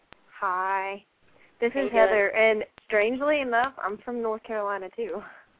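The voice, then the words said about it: North Carolina mountain accent. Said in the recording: “Love your accent. ... I'm from the mountains, definitely ... Sounds so good.”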